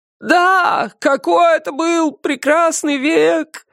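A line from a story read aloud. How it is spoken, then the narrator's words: Tearful chanted shouting. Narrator (Russian): Нараспев кричали остальные, их глаза наполнились слезами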